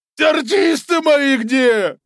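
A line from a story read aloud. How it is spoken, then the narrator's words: Barked. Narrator (Russian): рявкнул Карабас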